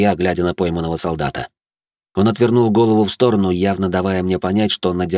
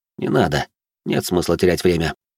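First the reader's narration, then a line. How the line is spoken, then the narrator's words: Calm. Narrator (Russian): спокойно произнес я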